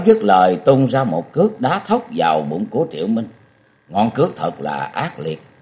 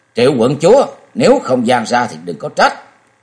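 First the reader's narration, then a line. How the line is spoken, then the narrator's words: Shaken, teeth-gritted shout. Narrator (Vietnamese): Dương Tiêu tay chân rụng rời, ông ta nghiến răng kẹn kẹt quát lên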